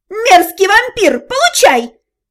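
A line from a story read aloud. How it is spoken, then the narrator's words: Sudden yell from behind. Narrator (Russian): Вдруг заорали позади меня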